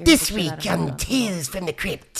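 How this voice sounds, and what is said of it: Crypt Keeper character voice impression. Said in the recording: “We found out I could do the Crypt Keeper... It's pretty good... that's very good”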